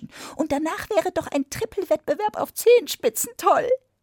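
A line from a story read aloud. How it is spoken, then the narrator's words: Mouse interjecting. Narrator (German): rief die Maus dazwischen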